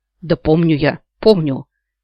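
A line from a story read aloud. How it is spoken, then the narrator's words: Grumbled. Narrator (Russian): пробурчал Ян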